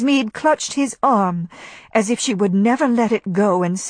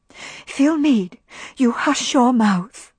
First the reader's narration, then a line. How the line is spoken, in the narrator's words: hissed Melanie